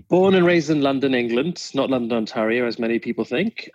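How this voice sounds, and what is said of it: Slight English accent. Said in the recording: “You've got a bit of an accent there. I recognize it.”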